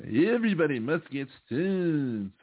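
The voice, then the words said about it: Imitates another person's voice, badly. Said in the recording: “bad Bob Dylan impression.”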